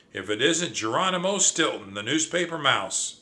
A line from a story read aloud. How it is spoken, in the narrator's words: Scratch cried